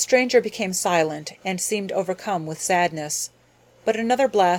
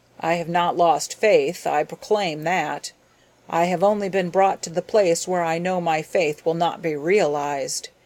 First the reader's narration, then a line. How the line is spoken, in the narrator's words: he declared hoarsely